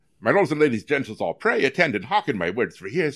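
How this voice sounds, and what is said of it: Put-on English accent. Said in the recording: “have an English type of accent? ... Yeah. I can do it.”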